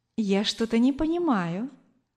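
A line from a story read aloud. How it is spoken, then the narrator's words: Gentle woman's voice. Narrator (Russian): ласково сказала женщина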